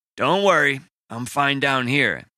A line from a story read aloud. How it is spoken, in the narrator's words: he grumbled